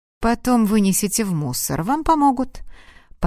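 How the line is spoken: Calm. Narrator (Russian): спокойно произнес

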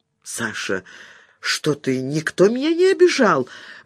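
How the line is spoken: Sorrowful exclamation. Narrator (Russian): воскликнула Катя, горестно

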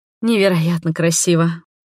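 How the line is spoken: Breathless delight. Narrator (Russian): выдохнула я, наслаждаясь открывшейся картиной

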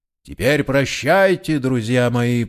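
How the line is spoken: Booming voice. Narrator (Russian): прогудел голос Вагнера за его спиной

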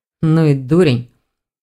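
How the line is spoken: Scoffing grunt. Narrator (Russian): хмыкнул Броган

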